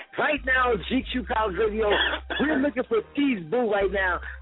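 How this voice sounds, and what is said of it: Radio DJ voice. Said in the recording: “I'm about to do my radio voice because this is how you wake everybody up.”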